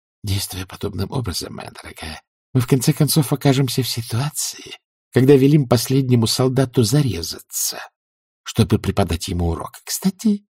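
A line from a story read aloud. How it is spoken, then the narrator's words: Soft. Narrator (Russian): добавил он мягко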